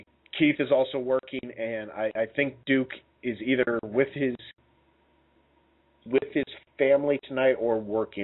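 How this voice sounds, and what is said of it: Voice still not fully recovered. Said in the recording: “as you can probably tell, my voice is still not back”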